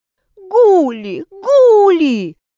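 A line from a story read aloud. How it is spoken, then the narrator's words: Sudden yell. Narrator (Russian): неожиданно завопила Роза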